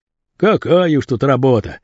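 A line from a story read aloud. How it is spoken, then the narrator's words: Grumbling. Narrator (Russian): ворчал Басилов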